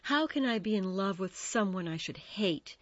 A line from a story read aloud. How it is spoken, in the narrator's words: she sighed